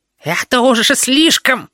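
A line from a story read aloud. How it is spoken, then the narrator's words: Squealing. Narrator (Russian): визжал Клоподав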